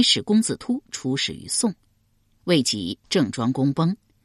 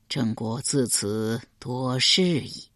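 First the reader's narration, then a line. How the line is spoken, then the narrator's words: Sighing. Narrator (Chinese): 郑庄公叹道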